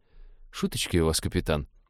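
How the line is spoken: Mutter. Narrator (Russian): пробормотал навигатор

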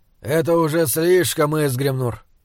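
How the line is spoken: Tired. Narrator (Russian): устало сказал он

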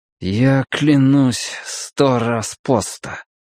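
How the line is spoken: Through clenched teeth. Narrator (Russian): сквозь зубы произнес Мэтью, потому что по его губам стек чей-то плевок

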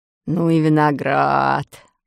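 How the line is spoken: Sailor muttering. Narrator (Russian): бормотал моряк

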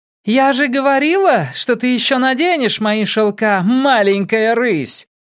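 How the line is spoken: Distant shout. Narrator (Russian): крикнула Хелен со двора

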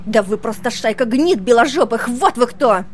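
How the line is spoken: Shrill screaming woman. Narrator (Russian): визгливо завопила негритянка

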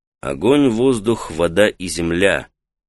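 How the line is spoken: Ordinary tone. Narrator (Russian): самым обычным тоном произнес Таита

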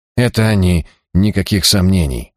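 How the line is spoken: Sighing. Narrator (Russian): вздохнул он

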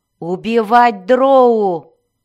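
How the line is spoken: Roar. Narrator (Russian): взревел Зак

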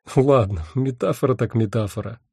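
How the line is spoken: After laughing. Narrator (Russian): отсмеявшись, сказал я

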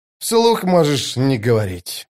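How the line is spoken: Sighing. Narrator (Russian): вздохнул Остряк

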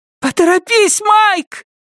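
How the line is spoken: Hurried shout. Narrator (Russian): только и успела крикнуть Джо

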